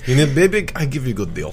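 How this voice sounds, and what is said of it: Put-on Russian accent. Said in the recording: “speaking in Russian accent ... talk in a Russian accent”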